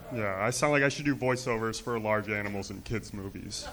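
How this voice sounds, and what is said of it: Deep voice. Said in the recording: “I have a deep voice.”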